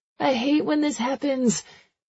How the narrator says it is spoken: Jessie shouts over the music, her complaint

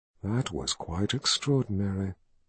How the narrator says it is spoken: she whispered

